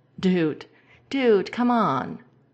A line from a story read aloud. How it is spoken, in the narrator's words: He splutters and brushes them away, laughing with a